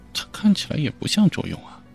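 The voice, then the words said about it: Quiet muttering. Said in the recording (Chinese): “小声嘀咕着”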